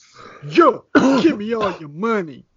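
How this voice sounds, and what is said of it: Put-on tough bank robber voice. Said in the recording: “What was that voice? ... That voice was a little problematic. Sounded like an accent ... That was my bank robber voice.”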